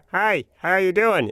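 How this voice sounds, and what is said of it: Imitates another person's voice. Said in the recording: “the boss at that video production house had kind of a funny way of talking ... my imitation”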